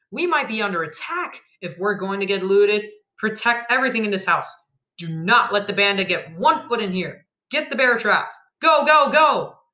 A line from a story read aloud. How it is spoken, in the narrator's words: cried